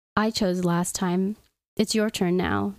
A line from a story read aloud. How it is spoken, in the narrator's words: Vitor replied